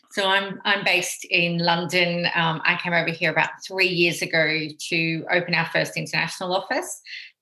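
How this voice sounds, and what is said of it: Australian accent. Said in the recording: “my accent probably gives it away that we're actually founded in Australia”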